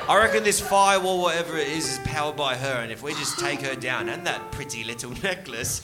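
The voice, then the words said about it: Put-on British accent, Jack the Ripper. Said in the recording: “in a British accent, very Jack the Ripper”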